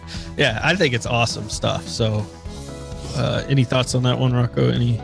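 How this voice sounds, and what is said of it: Usual voice. Nothing is said of it.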